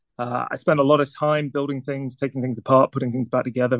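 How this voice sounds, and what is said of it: Northern English accent. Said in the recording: “you might be able to tell from the accent, I was born in England ... near a town called Newcastle in the north”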